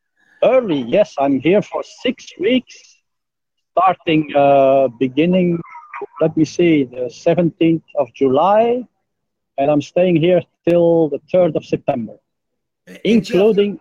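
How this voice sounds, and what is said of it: Slight foreign accent. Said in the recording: “you have an accent ... A little bit.”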